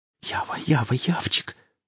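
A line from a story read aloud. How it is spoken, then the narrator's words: Rapid whisper. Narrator (Russian): шептал скороговоркой сталкер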